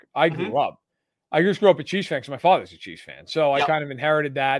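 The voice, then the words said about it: New York accent. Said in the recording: “as maybe you guys can tell from my accent, I grew up in New York.”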